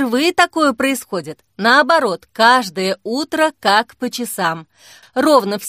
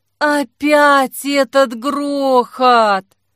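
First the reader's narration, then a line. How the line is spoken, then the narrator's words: Muffled groan. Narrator (Russian): простонала Вафля, прикладывая к лицу подушку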